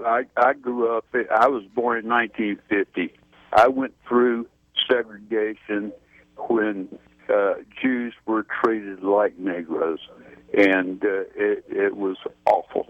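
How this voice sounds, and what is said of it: Southern American accent. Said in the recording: “You've got a southern accent.”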